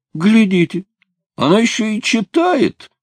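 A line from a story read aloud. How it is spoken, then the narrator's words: Laughing loudly. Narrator (Russian): расхохотался Зип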